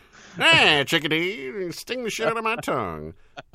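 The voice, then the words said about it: Poor imitation of another person's voice. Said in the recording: “He invoked W.C. Fields. ... that that terrible impression.”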